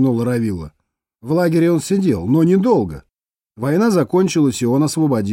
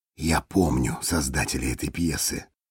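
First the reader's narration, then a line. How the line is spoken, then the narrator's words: Whisper after someone. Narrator (Russian): вслед ему прошептал Парцесс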